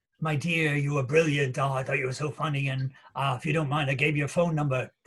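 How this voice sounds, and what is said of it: Imitates another person's voice. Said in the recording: “That's my impersonation.”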